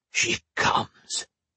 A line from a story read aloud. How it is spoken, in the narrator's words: he said, the words barely above a whisper